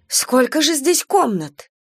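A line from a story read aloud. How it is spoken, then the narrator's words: Exclamation. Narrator (Russian): воскликнула Люба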